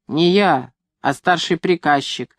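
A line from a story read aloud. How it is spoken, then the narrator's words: Stern explanation. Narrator (Russian): объяснил он мне строго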